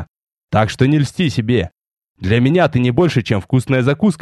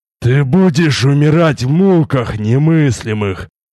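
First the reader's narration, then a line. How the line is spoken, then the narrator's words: Alien ugly rasping voice. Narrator (Russian): прохрипел Тарис совсем другим, чужим, уродливым голосом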